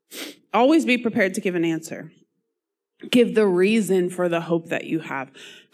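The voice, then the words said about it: Strained voice, losing it. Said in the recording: “I'm losing my voice.”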